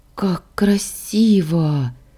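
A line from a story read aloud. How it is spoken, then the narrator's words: Admiring exclamation. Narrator (Russian): восхищенно воскликнула я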